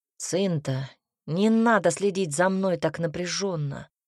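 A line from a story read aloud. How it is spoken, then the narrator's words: Gruff mutter. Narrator (Russian): буркнул Альберт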